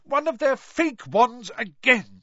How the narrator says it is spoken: she shouted

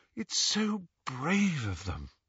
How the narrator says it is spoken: sighed Hermione admiringly

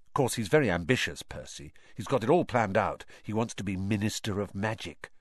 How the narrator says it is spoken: Ron told Harry and Hermione in an undertone

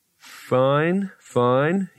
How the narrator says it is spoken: he said slowly

